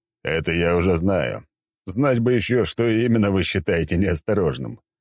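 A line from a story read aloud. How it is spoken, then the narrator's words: Short chuckle. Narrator (Russian): хохотнул я в ответ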